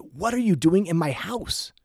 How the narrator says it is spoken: the man turned and yelled at me and said

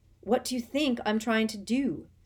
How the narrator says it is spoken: said Harry angrily

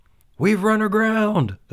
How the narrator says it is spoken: first mate shouted

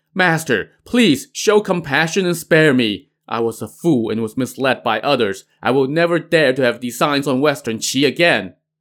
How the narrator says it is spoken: Winged Celestial pleaded

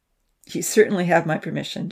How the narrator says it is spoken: Jax chuckled

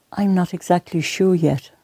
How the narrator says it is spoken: Maria replied

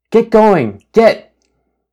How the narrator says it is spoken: coy wolf snapped its jaws

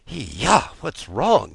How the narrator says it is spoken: he muttered in his sleep

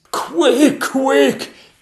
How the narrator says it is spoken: gasped the Lord Chamberlain

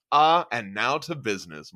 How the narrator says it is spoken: Meinhard says

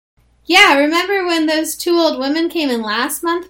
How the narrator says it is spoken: Bobby called, laughing

